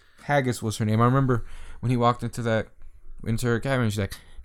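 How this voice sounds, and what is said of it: Usual voice. Nothing is said of it.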